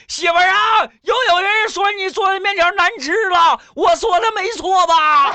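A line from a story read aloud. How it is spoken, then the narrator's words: Shouting from kitchen. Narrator (Chinese): 那人从厨房喊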